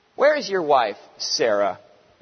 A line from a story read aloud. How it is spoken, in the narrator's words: they asked him